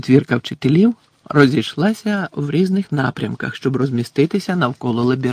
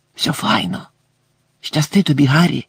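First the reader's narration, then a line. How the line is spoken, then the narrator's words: Whispered. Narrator (Ukrainian): прошепотів Гегрід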